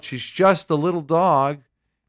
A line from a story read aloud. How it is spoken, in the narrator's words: The boy yelled